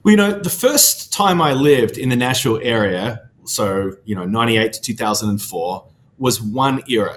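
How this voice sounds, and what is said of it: Very thick foreign accent. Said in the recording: “You have a very thick accent. You haven't lost it in 20 plus years.”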